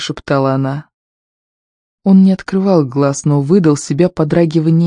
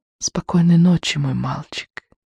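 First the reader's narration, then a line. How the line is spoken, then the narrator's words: Whisper. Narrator (Russian): Только и прошептала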